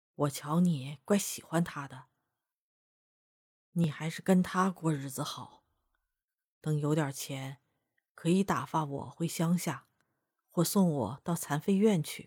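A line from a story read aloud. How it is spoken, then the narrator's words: Low voice. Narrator (Chinese): 他低声对春桃说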